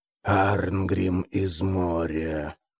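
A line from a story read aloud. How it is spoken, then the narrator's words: Dead man's hoarse rasp. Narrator (Russian): прохрипел мертвец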